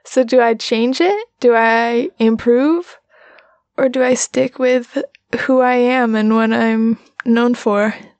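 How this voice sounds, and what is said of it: Slow southern drawl. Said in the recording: “this is my speed. This is my natural cadence. It's not snappy at all ... This slow, slow, sweet southern drawl.”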